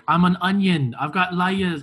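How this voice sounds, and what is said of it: Imitates a cartoon ogre's accent. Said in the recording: “it's not really great Shrek accent ... That was a great Shrek impersonation.”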